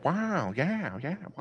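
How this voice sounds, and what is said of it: Owen Wilson impression. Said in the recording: “impersonation of Owen Wilson ... Oh, Owen Wilson. ... that sounded pretty good, actually.”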